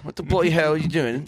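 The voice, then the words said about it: Put-on English accent. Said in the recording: “English accent”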